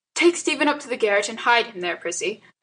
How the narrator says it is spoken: said firmly

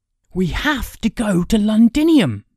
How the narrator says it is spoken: Kay cried

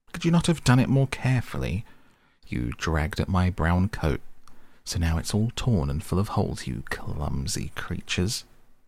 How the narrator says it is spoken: he cried with his shrill voice

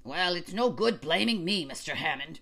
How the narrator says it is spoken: wheezed old Captain Johnson

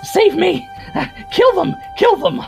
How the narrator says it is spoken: in that, like, high, screechy, fucking obnoxious goblin voice

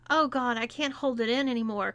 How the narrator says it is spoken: cried Nick

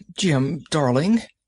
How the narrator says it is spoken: she cried

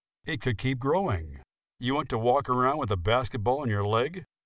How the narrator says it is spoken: Alan laughed to himself

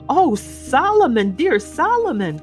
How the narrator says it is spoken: cried Miss Pross

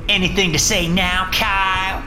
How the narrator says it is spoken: Michaela added triumphantly

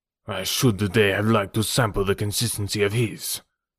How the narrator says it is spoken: growled Decoud grimly

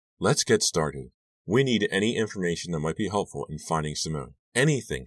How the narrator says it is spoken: she added firmly

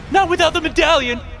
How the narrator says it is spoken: daughter cried out

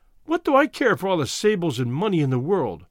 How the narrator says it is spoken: She cried

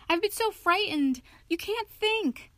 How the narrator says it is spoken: he cried

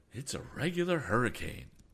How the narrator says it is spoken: exclaimed the captain

